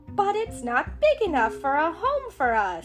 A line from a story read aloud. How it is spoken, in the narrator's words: cried Chip